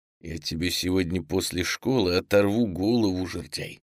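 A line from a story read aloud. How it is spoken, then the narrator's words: Quiet, through gritted teeth. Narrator (Russian): тихо процедил сквозь зубы Саша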